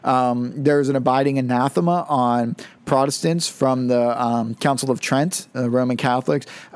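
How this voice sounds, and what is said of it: Strained, fading voice. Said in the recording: “my voice is starting to go already”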